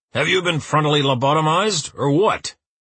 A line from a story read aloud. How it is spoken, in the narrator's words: Uwe roars